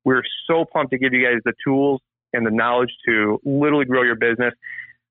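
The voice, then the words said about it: Excited, fired-up voice. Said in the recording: “I'm I'm so fired up. You can probably tell it in my voice.”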